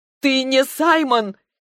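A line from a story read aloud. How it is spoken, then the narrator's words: Almost shouting. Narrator (Russian): теперь она почти кричала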